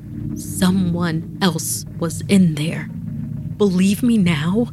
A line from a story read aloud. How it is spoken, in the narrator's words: asked